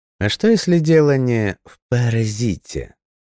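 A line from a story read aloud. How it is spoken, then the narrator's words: Mocking drawl. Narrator (Russian): насмешливо протянул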